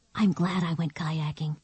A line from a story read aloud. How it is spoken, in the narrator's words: she whispered